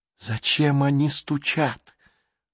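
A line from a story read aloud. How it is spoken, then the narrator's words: Whispered question. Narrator (Russian): шепотом спросила Джулия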